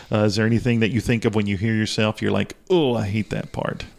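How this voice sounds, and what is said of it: Strong Southern hillbilly accent. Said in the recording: “all I hear is the hillbilly who's talking on the radio up here north of the Mason-Dixon line ... I have too much of an accent”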